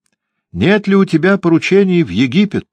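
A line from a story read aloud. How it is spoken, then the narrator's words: Loud question. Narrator (Russian): громко спросила она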